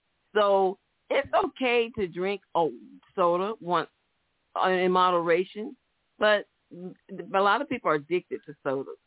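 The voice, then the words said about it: Southern American accent. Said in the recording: “My southern accent not letting me say it right”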